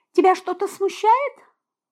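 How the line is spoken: Sweet angelic voice. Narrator (Russian): ангельским голоском спросила я

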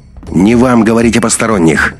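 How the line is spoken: Suddenly sharp. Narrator (Russian): неожиданно резко вступил Андрей

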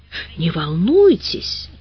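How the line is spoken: Reassuring whisper. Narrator (Russian): тоже зашептала регистраторша

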